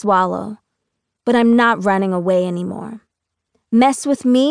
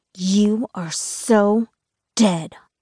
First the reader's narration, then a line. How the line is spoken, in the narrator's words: Laura snarls